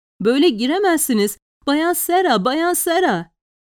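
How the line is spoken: Servant screaming. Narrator (Turkish): çığlık çığlığa bağıran hizmetliyi

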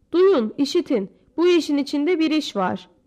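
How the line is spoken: Shouting. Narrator (Turkish): diye bağırdı

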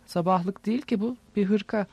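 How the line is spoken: Plain. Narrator (Turkish): dedi

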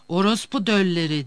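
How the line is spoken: Cried out. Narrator (Turkish): diye haykırdı

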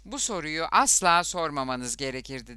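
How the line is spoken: Plain. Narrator (Turkish): dedi

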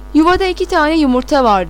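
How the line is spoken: Shouted. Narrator (Turkish): diye bağırdı

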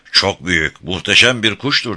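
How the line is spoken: Plain. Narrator (Turkish): dedi Louisa

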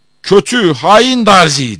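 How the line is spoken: Shouting. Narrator (Turkish): diye bağırdı

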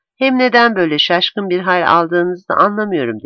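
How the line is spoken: Plain. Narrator (Turkish): dedi

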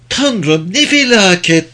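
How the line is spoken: Moaned. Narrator (Turkish): diye inledi

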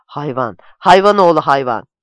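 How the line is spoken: Shouted. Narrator (Turkish): diye bağırdı

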